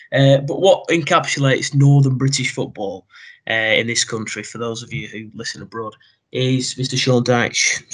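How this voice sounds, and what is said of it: British accent. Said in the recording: “as a true British man that I am ... my accent does kind of ruin the aesthetic”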